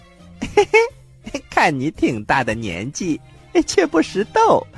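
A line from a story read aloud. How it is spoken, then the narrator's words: Chuckling. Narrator (Chinese): 孙悟空嘿嘿一笑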